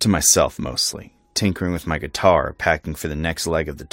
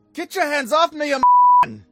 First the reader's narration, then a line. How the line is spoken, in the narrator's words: her yelling